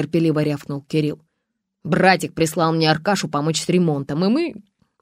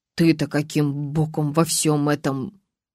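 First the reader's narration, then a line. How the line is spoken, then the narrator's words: Quiet question. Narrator (Russian): тихо спросила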